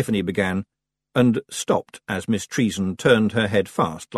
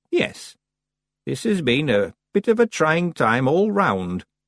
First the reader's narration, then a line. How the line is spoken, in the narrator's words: said Miss Treason very calmly